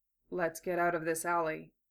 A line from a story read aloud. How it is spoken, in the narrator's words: Gatto said calmly